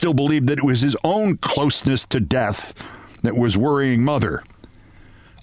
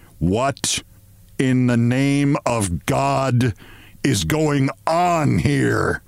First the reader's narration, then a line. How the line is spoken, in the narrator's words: asked Father